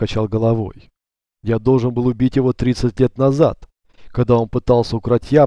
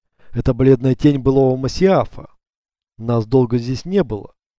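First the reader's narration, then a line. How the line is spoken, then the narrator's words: Gentle reminder. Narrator (Russian): мягко напомнила ему Мария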